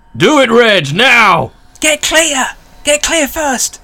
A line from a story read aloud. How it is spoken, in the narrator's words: Vern is just going to shout